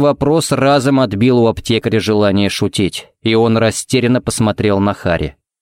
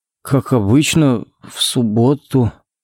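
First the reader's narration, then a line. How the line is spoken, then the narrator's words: Uncertain drawl. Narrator (Russian): неуверенно протянул Коннорс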